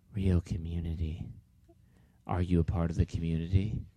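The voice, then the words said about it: Creepy put-on voice. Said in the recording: “That's my creepy voice.”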